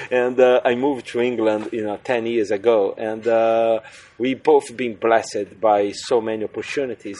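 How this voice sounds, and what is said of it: Brazilian accent in English. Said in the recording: “I'm originally from Brazil, for people who actually couldn't understand my accent.”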